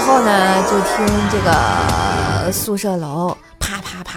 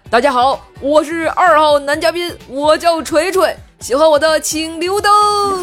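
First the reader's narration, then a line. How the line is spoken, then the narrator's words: Disguised-voice shout. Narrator (Chinese): 我每天都会在差五秒钟十点的时候变声大喊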